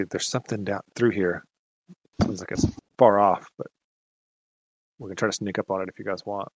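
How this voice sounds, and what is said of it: Stealthy voice. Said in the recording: “I say that in my stealthy voice.”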